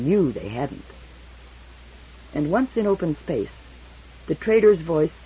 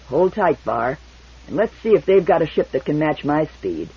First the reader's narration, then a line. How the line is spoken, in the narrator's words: Devers said grimly